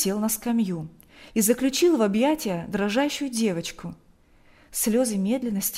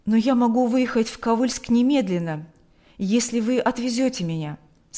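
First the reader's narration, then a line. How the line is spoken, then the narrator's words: Plain. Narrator (Russian): сказал отец Кирилл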